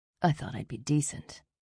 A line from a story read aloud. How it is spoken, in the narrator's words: pressed his mouth to her ear and whispered